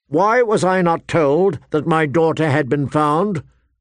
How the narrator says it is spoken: Ned demanded, his voice ringing

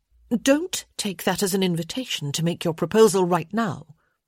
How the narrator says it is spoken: she said sharply

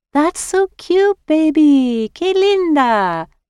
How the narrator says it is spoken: she cooed

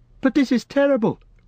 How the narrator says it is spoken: cried Frodo

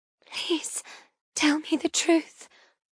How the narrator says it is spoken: I whisper

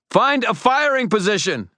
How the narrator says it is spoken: I shouted to the rest of the defenders

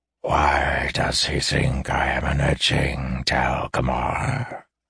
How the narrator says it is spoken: the red-scaled snake asked in a hissing lisp

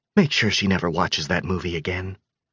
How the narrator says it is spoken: Grace whispered

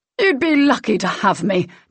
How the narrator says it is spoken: Derek spat

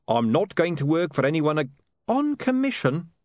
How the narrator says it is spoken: snapped Saccharissa

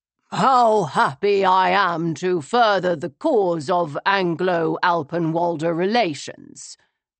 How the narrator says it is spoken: he said loudly

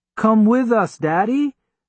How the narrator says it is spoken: Nadima pleaded

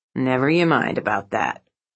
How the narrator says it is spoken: he would grumble in reply

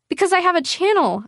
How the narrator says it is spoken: I blurted, the words rushing out

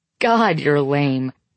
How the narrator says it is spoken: Corbin says, laughing

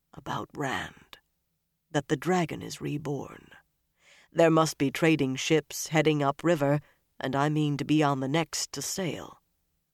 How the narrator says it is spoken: he still lowered his voice and said only

